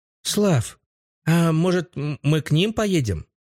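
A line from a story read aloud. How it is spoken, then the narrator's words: Timid woman asking. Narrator (Russian): Робко поинтересовалась женщина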